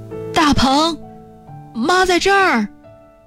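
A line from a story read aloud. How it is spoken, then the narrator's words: Trembling call. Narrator (Chinese): 颤巍巍的一声喊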